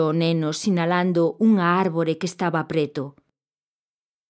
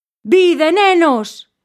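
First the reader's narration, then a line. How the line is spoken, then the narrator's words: Shout. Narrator (Galician): berrou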